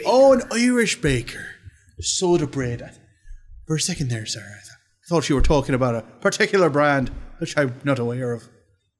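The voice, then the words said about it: Deliberately bad put-on accent. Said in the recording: “this is a terrible accent”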